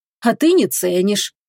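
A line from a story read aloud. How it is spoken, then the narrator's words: Sad. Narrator (Russian): грустно добавил он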